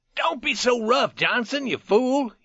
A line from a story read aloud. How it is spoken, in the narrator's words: he cried